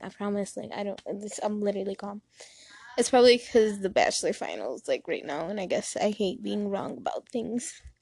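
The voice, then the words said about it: Shaky, anxious voice. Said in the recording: “I feel like my voice is shaking”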